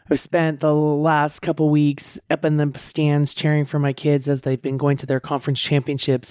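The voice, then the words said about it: Hoarse, strained, husky voice. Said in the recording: “my voice is a little hoarse. ... my voice is a little tired and strained ... it is a little husky”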